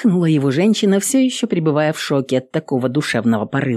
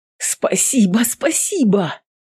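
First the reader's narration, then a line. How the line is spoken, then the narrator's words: Tearful joyful exclamation. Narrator (Russian): Воскликнул, смахивая слезы радости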